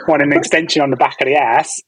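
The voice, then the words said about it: Put-on London East End accent. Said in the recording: “I do my accent ... Is that the East End? ... We were south of the river”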